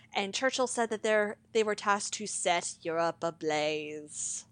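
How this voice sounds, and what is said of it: Churchill impression. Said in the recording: “I'm trying to do a Churchillian accent”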